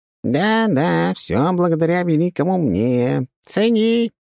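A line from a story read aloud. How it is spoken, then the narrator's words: Squeaky imp voice, inner. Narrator (Russian): пропищал в голове чертила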